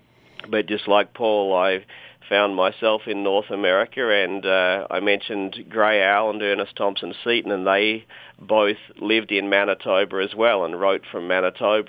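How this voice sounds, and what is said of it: Australian accent. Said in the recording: “You may be able to tell from my accent that I'm not a Canadian. In fact, I'm from Australia.”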